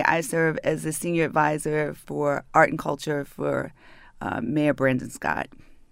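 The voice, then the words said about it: Northern American accent. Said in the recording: “She speaks with a northern accent, and many people believe she's from New York”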